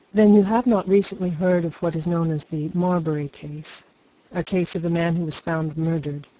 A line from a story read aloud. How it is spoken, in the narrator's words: asked Spargo